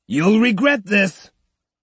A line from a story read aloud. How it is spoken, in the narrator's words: another, red with anger, shouted